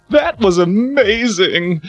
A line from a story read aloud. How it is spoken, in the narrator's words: Ronald sobbed honestly